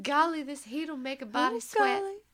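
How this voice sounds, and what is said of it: Put-on full Southern drawl. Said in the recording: “went from Long Island accent to... To like full on Southern drawl.”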